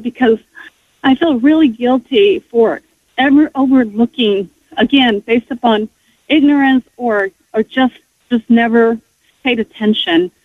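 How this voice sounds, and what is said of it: Emotional, tearful, choked-up voice. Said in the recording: “I just broke down... I just couldn't hold my tears... Sorry, I'm getting emotional”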